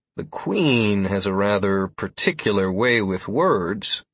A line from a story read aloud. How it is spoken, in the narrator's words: I said slowly, still trying to process what I just read